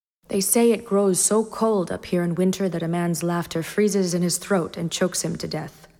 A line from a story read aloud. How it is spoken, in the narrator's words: Ned said evenly